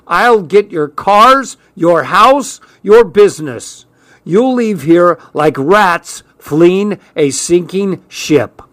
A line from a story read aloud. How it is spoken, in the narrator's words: shouting